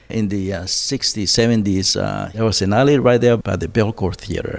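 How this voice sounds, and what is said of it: Colombian accent. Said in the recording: “speaks with a Colombian accent”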